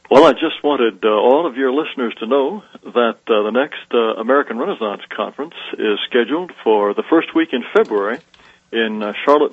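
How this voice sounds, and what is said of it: Aristocratic-sounding accent. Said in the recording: “People even love your aristocratic accent”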